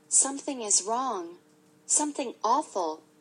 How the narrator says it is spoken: whispered Beezus

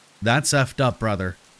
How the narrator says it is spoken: Snake said

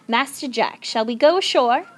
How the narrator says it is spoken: said Praiseworthy

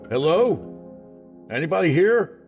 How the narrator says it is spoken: called out

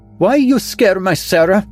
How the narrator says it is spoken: She cried, her swarthy face flushed

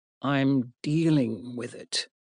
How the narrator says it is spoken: said Richard

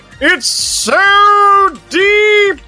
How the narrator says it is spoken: Bucky sobs out a cry

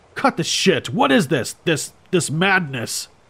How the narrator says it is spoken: I bellowed

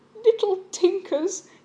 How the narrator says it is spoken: exclaim breathlessly

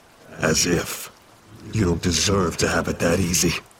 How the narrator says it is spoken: Aiden snarled

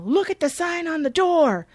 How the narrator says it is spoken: shouting

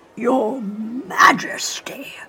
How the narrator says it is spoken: Sir Guy shouted, loudly enough to spook one of the carriage horses

